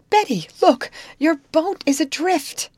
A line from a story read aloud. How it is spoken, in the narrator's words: Her surprise … as she cried